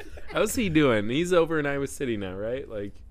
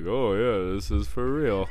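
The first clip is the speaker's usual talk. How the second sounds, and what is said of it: Imitates another person's voice. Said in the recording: “best Joseph impression”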